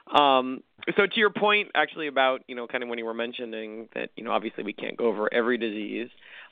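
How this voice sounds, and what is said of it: Slightly scratchy voice. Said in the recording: “My voice is a little scratchy. ... I got my first cough/cold of the season, so if you hear me hacking a little”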